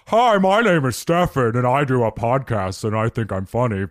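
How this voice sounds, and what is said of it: Exaggerated very deep voice impression. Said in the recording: “somebody does an impression of my voice ... It's just this very deep.”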